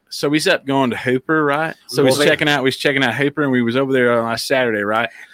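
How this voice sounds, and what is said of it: Put-on West Texan accent. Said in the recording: “you had that fucking West Texan accent”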